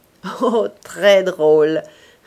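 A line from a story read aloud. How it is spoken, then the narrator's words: Young man laughing. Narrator (French): répondit le jeune homme en riant encore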